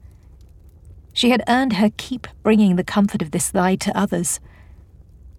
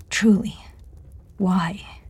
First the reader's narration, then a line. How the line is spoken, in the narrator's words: Amanda asked softly